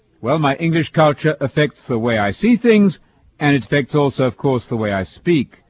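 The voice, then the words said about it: English accent. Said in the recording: “my accent is foreign. I'm from England, of course”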